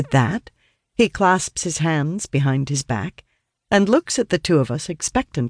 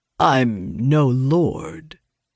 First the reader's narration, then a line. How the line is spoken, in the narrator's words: replies coolly